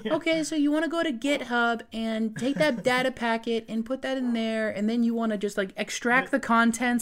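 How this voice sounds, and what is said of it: Imitates a 14-year-old's voice. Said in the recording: “it's a good impression of a 14-year-old.”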